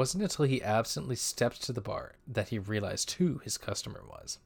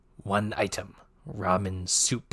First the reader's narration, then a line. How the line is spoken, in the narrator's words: the Elixir croaked stiltedly